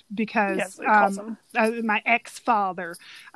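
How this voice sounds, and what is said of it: Imitated Southern accent. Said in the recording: “he has a very great Southern accent. ... I love Mark's accent. ... that's exactly how he says it.”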